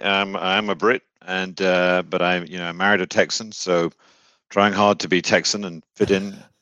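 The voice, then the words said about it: British accent. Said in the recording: “talking in that like great British accent”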